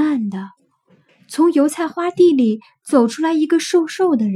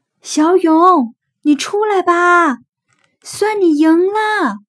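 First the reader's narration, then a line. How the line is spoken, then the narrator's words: Shouted repeatedly. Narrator (Chinese): 一连喊了好几遍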